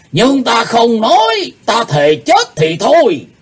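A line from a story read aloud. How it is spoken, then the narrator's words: Furious loud shout. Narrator (Vietnamese): Lão âm ma Lỗ Tử Đàn giận tím mặt quát to lên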